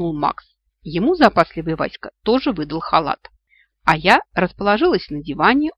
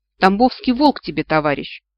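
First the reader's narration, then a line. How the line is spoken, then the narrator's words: Scornful snort. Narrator (Russian): фыркнул появившийся в дверях Макс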